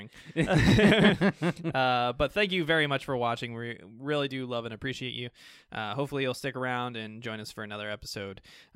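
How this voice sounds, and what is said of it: Tired, slightly slurred speech. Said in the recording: “It's late, I'm tired, I'm slurring.”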